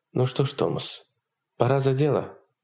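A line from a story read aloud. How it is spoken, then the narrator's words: Calm. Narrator (Russian): Хонор спокойно сказала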